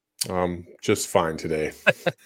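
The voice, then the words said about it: Flat, unenthusiastic delivery. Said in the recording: “You sound so thrilled.”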